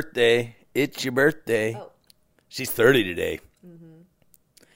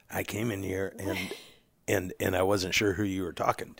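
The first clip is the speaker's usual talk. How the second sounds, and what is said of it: Put-on podcast voice. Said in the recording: “What is that podcast voice? Do it again. ... Are you like Johnny Cash?”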